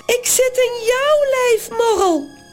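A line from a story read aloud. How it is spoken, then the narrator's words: Shrieking. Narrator (Dutch): gilt ze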